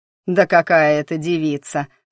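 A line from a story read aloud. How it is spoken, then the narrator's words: Robber growling. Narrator (Russian): прорычал разбойник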